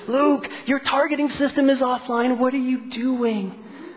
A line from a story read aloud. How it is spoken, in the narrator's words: a frantic voice screaming